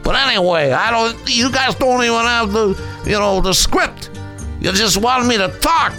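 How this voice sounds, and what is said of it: Italian mafia-style accent. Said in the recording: “You're looking for Italian accent. It's a mafia, right?”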